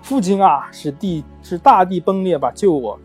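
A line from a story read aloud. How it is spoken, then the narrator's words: Crying out. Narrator (Chinese): 达芙妮叫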